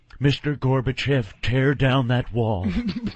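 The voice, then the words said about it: Imitates another person's voice. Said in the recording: “I'm an impressionist too. Watch this. ... that was an impression. ... That was Ronald Reagan.”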